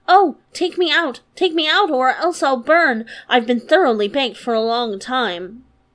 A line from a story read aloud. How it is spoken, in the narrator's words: the bread cried again